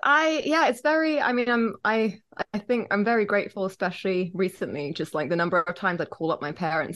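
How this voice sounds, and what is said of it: English accent. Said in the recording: “Everyone listening can notice the English accent”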